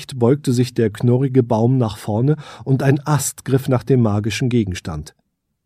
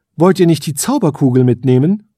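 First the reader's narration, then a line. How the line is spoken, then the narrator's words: Calling out. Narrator (German): rief die Elfenkönigin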